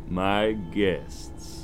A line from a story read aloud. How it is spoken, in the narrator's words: the figure called out